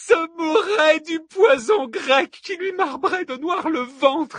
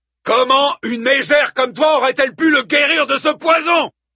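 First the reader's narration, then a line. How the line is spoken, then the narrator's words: Thundered, godlike resonant voice. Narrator (French): tonna Hector, d'une voix dont la résonance égalait celle d'un dieu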